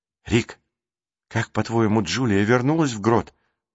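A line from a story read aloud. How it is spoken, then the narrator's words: Whisper. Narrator (Russian): донесся до него шепот Джейсона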